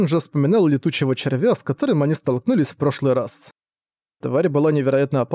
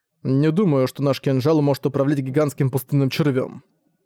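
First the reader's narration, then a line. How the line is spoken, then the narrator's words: Plain. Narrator (Russian): сказал Зориан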